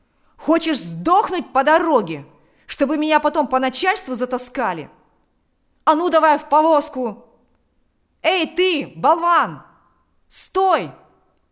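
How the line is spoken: Shouting. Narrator (Russian): закричал он кучеру

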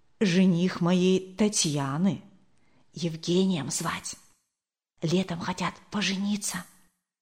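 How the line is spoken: Whispered in ear. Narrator (Russian): Зинаида Кирилловна шепнула на ухо Марии Николаевне

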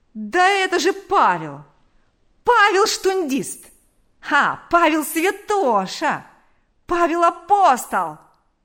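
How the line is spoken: Yelling. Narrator (Russian): вопил он

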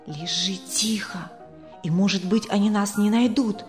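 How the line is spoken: Whisper. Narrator (Russian): прошептал Исаак

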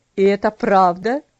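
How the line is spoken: Angry question. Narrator (Russian): спросил он, сердито хмурясь

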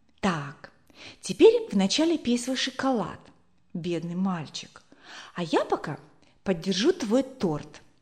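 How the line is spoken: Whisper. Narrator (Russian): прошептала ему

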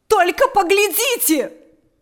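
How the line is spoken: Shouting. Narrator (Russian): закричала она

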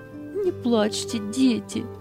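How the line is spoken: Soothing, holding back sobs. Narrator (Russian): Еле сдерживая рыдания, успокаивала их Анита

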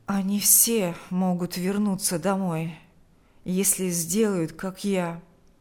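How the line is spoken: Hollow, muffled voice. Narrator (Russian): ответил Николай глухим голосом

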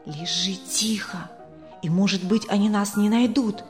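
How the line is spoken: Whisper. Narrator (Russian): прошептал Исаак

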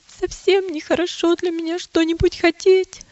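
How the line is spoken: Sobbing reply. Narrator (Russian): ответила Милость, всхлипывая

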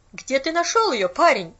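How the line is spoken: Sharp repetition. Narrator (Russian): резко повторила она

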